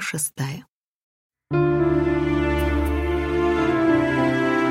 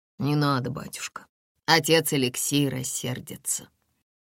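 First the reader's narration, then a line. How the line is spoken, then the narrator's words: Grumbled. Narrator (Russian): один из них буркнул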